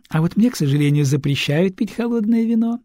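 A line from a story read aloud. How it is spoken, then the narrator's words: Cooing. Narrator (Russian): проворковала Этель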